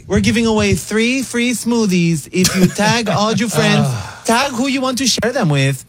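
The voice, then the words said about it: Put-on Miami influencer accent. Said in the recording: “she's from Miami, apparently, with that accent you're doing”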